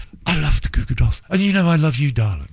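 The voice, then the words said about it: Posh English accent. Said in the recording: “It's that posh English accent.”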